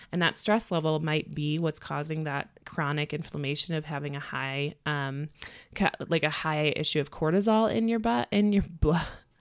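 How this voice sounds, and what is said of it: Midwestern American accent. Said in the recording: “See the Midwestern accent coming right back out.”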